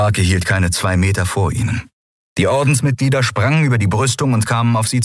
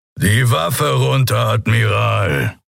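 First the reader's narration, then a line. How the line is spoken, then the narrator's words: Growled, rumbling. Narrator (German): brummte der Skria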